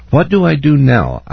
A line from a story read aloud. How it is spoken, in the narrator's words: I asked in a borderline desperate voice